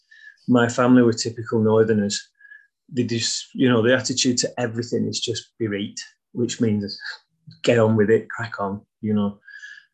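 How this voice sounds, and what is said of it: Northern English accent. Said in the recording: “as you can tell from my accent, I'm a northern lad.”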